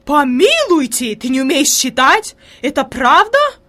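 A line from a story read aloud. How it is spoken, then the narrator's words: Horrified exclamation. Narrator (Russian): воскликнула фрейлин в ужасе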